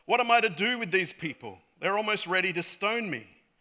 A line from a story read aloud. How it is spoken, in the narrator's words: Moses cried out to the Lord